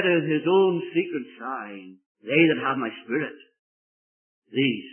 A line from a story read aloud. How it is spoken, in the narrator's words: says